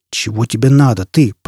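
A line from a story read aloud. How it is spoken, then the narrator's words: Growled. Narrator (Russian): прорычал Фойл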